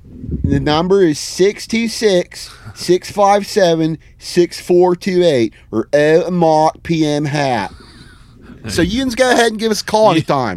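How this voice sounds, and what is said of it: Put-on Pittsburgh accent. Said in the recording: “read it in a Pittsburgh accent”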